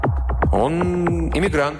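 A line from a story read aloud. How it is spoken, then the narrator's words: Plain. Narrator (Russian): ответил Аллен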